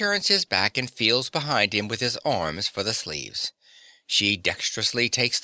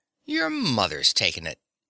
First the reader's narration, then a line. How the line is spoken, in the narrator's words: He rises, exclaiming